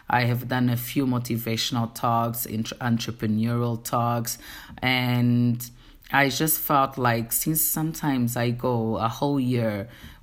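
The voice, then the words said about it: Portuguese-accented English. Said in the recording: “if you can hear the accent, my first language is Portuguese ... my English is not perfect ... The Portuguese in me is just stronger”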